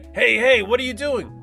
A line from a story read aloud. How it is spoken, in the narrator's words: Spaz yelled